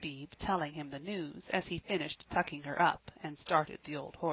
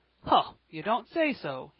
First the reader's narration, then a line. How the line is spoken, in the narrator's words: he cried